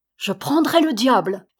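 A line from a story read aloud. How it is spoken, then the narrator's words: Shouted. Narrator (French): cria Bella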